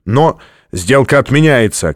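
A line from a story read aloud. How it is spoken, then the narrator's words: Shouted. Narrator (Russian): крикнул Стратмор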